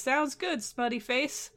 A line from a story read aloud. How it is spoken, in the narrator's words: Truatan laughs and says